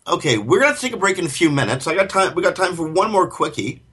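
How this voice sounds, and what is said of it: Canadian accent. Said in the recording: “those who can't tell by the accent or by the subject material, ... and I both reside in Canada”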